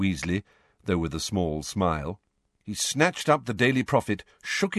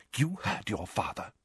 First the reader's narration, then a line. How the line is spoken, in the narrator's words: whispered Mrs